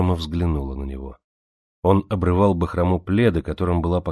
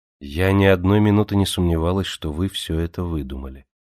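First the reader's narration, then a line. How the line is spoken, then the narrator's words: Calm. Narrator (Russian): спокойно ответила Джемма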